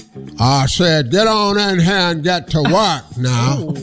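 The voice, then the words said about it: Put-on accent. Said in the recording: “Now you gotta change your accent.”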